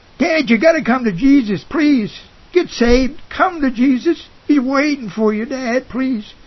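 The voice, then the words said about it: Raised, louder pleading voice. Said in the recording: “raised my voice a little bit”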